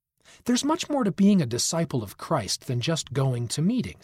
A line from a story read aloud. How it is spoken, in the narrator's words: he said